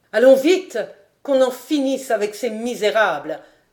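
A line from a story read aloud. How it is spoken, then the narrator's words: Exclaiming. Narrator (French): s'écria Guy Hédère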